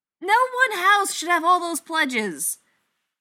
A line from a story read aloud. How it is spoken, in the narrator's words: Natalie shrieks